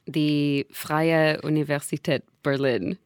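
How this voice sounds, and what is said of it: German accent pronunciation. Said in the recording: “100% points for that down pronunciation ... To the accent ... how do I say this with a German accent?”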